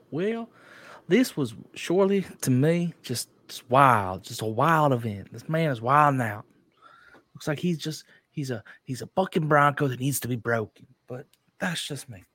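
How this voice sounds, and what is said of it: Exaggerated fake Southern accent. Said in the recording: “Terrible so Southern accent. Terrible.”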